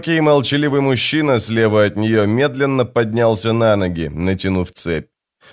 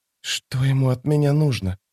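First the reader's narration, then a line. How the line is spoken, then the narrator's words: Whisper. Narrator (Russian): прошептала Фелисин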